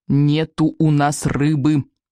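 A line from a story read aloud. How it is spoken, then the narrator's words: Repeated through clenched teeth. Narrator (Russian): повторил Икинг сквозь зубы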